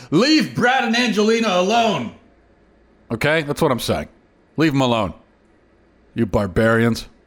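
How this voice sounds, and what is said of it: Sarcastic delivery. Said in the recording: “now I'm being sarcastic”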